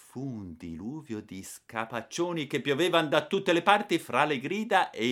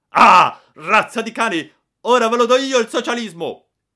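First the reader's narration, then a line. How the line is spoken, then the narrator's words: Terrible booming shout. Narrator (Italian): una voce terribile, quella di mio padre, rimbombò nel negozio gridando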